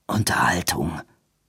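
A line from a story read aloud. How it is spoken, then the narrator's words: Hissing, swan-like voice. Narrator (German): setzte Edwin an und hörte die Worte halb wie das Fauchen der Schwäne herauskommen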